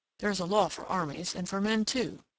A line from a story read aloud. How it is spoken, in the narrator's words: he muttered, lost in reflection